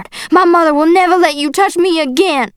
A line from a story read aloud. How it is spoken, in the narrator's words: I shouted